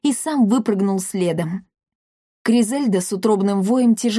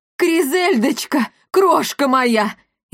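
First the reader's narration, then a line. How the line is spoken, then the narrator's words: Frantic scream. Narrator (Russian): истошно закричал он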